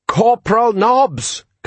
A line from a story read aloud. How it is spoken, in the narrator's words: Colon yelled